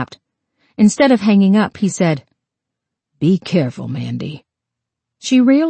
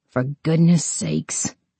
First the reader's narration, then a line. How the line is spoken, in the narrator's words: Amanda mumbled